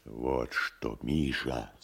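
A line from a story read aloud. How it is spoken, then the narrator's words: Whispering. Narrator (Russian): зашептал поэт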